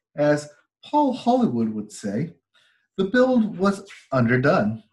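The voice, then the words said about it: Put-on British accent. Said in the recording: “tried to put on my best British accent”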